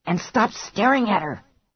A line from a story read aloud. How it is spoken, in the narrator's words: Mary whispered fiercely